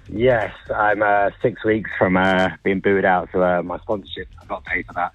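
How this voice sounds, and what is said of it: British accent. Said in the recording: “Is that a British accent I hear? It is, yes.”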